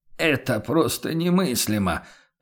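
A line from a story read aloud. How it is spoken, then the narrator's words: Mournful mutter. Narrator (Russian): Пробормотал торговец с тоской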